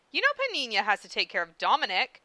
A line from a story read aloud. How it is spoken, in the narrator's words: Winry snapped